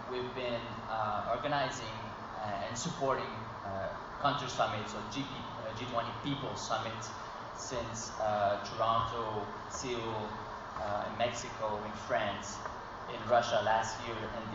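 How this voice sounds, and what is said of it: Canadian English accent. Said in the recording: “you recognize by my accent that I'm not from Australia, I'm from Canada”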